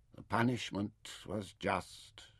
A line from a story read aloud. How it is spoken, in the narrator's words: he whispered